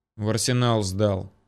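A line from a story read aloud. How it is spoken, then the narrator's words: Gruff mutter. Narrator (Russian): буркнул Ермолов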